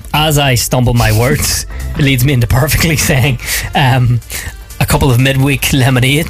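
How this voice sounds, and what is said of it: Hoarse, losing voice. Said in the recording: “Losing my voice. ... I'm just choking to death here on my own air. ... Hay fever.”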